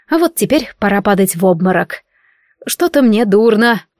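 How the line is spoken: Mumbled. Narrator (Russian): пробормотала я

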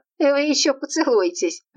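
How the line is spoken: Mother-in-law laughing. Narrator (Russian): рассмеялась свекровь

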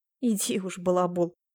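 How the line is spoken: Snorted. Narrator (Russian): фыркнула Яна

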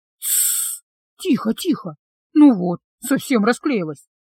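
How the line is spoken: Soothing murmur. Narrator (Russian): Кейран бормоча что-то утешительное

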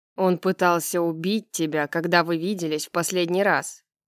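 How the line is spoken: Warning. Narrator (Russian): предупредил Дек

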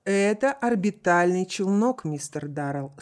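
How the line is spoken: Calm and loud. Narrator (Russian): спокойно и громко, чтобы услышали все

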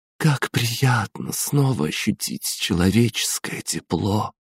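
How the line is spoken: Mumbled. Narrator (Russian): пробормотала

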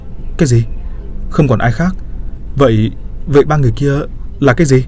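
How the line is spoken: Trembling. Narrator (Vietnamese): Tôi run rẩy

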